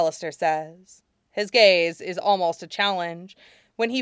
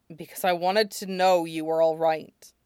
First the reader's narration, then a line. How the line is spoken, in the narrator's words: he sighs and says